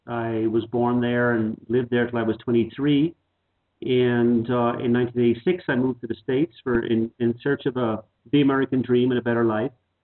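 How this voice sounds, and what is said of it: Irish accent. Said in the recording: “I'm originally Irish, as you will probably notice from the accent.”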